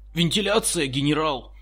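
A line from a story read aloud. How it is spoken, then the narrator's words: Muffled shout. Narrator (Russian): приглушенно крикнул один из бойцов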